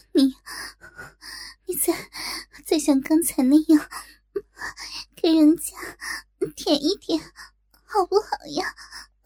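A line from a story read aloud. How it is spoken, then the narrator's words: Shy, embarrassed. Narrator (Chinese): 小文已是小脸通红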